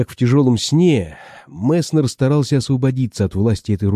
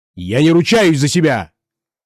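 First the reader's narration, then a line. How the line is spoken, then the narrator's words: Shouted. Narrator (Russian): крикнул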